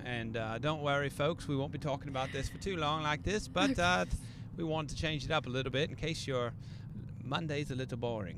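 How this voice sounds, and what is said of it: Mock British accent mixed with Indiana. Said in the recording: “Are we talking with a British accent? ... it's kind of a mixture between Indiana and British”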